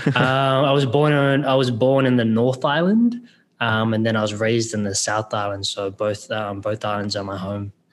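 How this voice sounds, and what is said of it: Australian-New Zealand accent. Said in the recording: “My accent goes between Australian and New Zealand.”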